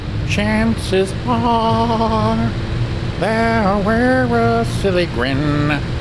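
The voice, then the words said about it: Imitates another person's singing voice. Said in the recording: “my Johnny Mathis impression”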